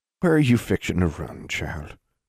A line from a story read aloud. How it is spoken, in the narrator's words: Granny Pritchard asked, a little more gently